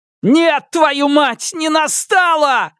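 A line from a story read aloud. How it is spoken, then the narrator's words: Roaring. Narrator (Russian): взревел я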